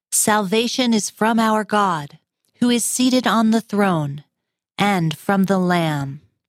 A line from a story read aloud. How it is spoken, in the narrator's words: They cried out in a loud voice